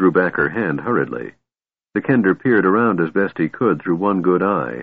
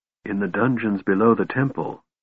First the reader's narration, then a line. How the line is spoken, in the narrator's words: Tika said softly